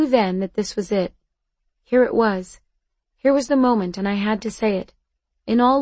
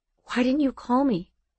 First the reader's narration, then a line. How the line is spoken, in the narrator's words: he whispered, and he sounded suddenly broken